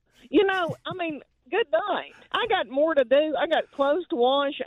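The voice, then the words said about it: Country accent. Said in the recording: “you talking about country, and I and this is my voice... She's putting on a fake accent”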